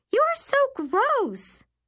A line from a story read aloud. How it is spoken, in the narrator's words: Carly shrieks